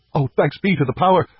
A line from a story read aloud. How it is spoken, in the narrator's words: I cried